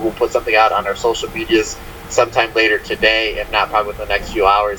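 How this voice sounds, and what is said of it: Tired, strained, fading voice. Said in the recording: “I'm tired. I'm losing my voice here.”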